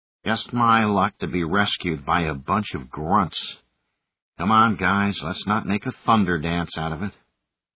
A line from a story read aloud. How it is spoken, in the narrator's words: Pippin muttered under his breath